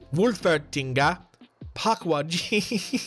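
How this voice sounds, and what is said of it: Attempted German accent sounding Indian. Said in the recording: “I kind of said that in like a bit of an Indian accent. I'm trying to say them in German accents ... I can't do it. It sounds Indian.”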